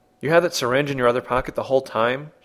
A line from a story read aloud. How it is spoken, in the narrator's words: said